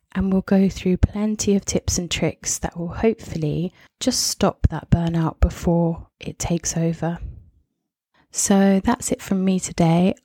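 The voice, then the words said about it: Croaky voice. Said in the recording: “I'm sorry if I've sounded a bit croaky. ... I've got a sore throat. ... I do apologize if I've sounded a bit croaky today.”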